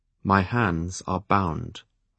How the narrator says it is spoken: I pointed out stiffly

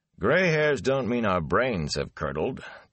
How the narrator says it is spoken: Tam said dryly

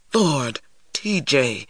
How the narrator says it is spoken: Stacy exclaimed in a whisper

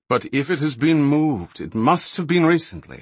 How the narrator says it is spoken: Balinor speculated, his breathing labored, his voice weary as he tried to think

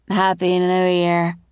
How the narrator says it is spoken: slurred the woman

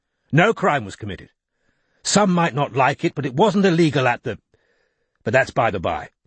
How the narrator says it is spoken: he added sharply

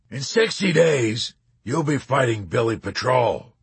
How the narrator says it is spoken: the colonel roared

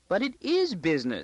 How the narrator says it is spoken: she squeaked

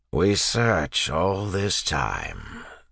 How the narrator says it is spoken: said an inquisitor in his grinding voice

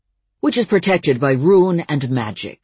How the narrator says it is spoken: snapped Uncle Mike

